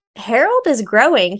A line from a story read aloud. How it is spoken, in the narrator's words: he said